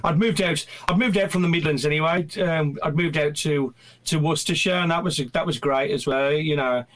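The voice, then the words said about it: Strong regional English accent. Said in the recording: “nobody can understand me with my accent”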